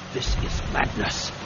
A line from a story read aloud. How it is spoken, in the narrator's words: said, lowering his voice